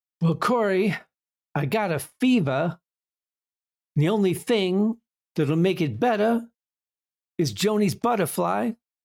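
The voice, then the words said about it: Poor imitation of a celebrity voice. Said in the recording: “That's the shittiest Christopher Walken impersonation anyone has ever done in the history of Christopher Walken impersonations.”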